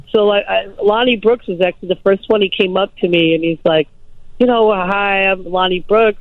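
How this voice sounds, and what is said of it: Speaks with a noticeable accent. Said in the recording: “I still have an accent, but it was really heavy”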